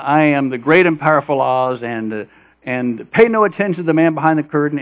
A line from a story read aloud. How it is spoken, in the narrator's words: this guy screaming in the microphone